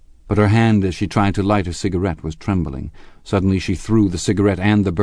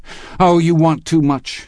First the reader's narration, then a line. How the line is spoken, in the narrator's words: she cried to Gatsby